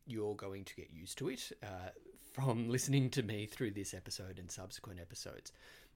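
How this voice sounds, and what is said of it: Australian accent. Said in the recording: “I am Australian ... the Australian accent ... sometimes an Australian accent is difficult to understand”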